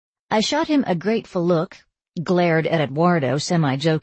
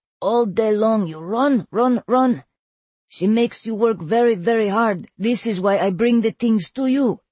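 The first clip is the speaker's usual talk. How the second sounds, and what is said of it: Thick Russian accent. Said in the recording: “he said in his thick Russian accent.”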